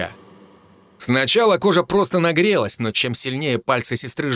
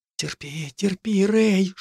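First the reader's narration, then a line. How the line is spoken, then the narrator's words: Sister's whisper. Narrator (Russian): шептала сестра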